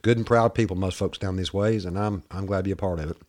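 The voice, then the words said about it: Southern US accent. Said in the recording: “my little southern boy, my little redneck accent”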